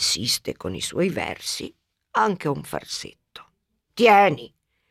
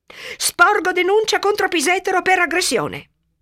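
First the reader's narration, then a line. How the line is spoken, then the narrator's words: Shouting. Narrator (Italian): urla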